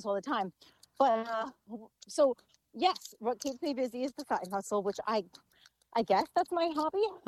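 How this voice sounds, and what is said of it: Out of breath while walking. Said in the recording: “if you hear me, I'm out of breath walking”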